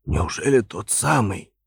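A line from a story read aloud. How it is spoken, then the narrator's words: Hoarse, bewildered question. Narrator (Russian): спросил я хриплым голосом, на мгновение растерявшись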